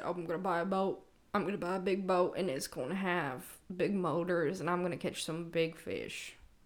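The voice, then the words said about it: Imitates another person's voice. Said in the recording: “That was a really great impression of my husband”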